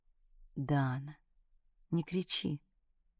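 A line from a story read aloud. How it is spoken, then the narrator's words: Soft request. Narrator (Russian): мягко попросил меня Артур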